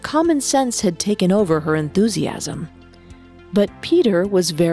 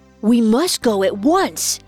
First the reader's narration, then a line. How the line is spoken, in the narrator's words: exclaimed John